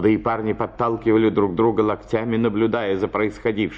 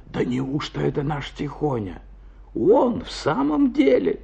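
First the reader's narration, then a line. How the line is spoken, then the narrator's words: Whispering. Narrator (Russian): шептались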